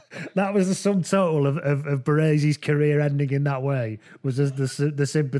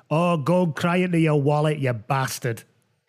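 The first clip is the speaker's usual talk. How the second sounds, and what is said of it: Put-on Scottish accent. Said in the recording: “in a Scottish accent, I'll try and do it”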